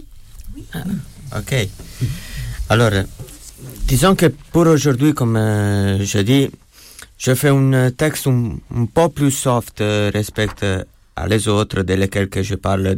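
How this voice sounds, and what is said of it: Italian-accented French. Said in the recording (French): “ce bel accent italien”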